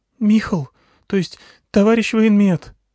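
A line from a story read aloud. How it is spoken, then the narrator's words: Trembling voice. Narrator (Russian): спросила Алька дрогнувшим голосом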